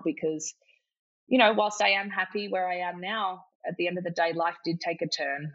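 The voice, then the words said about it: Emotional, shaky voice. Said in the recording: “my heart is racing through my chest ... I'm getting a bit emotional now”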